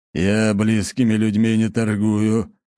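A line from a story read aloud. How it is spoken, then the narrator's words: Captain's gloomy grumble. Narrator (Russian): хмуро проворчал капитан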